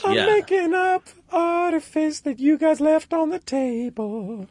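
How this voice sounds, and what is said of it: Singing falsetto voice. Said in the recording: “I'm going to talk in a Smokey Robinson falsetto. ... I'm singing in falsetto.”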